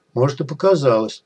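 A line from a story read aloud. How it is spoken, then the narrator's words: Muttering. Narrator (Russian): пробормотал сталкер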